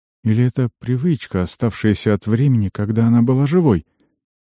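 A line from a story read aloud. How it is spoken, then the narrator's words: Sighing. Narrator (Russian): Вздохнула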